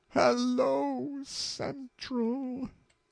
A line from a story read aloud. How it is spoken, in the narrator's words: she gasped almost inaudibly